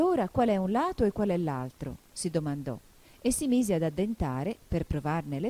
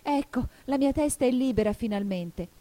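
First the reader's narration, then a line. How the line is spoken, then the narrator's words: Joyful exclamation. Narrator (Italian): esclamò Alice gioiosa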